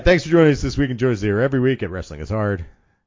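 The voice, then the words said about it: Congested, stuffed-up nasal voice. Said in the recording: “stuffed up nose. I have a cold.”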